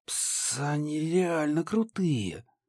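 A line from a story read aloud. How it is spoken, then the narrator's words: Hissed. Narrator (Russian): прошипела Даша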